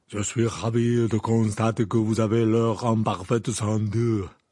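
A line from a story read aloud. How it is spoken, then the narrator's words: Deep voice. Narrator (French): répondit Madame Maxime d'une voix grave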